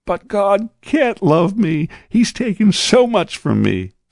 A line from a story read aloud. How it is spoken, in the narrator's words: sobbed the man